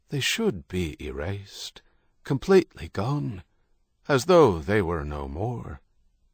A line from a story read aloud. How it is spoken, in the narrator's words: His voice low and sad, O'Donnell added